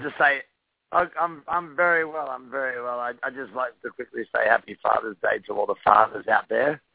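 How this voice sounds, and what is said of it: Australian accent. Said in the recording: “you obviously have that accent going on there ... I was born in Sydney, Australia.”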